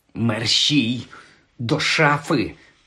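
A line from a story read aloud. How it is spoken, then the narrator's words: Hiss. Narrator (Ukrainian): зашипів Гаррі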